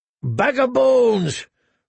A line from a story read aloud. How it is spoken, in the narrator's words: roared Tormund